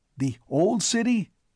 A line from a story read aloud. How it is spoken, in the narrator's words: cried Piers Eglin eagerly